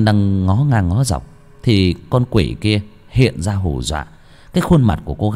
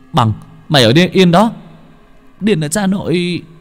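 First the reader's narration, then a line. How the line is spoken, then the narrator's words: Shouting. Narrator (Vietnamese): Hồng kêu lên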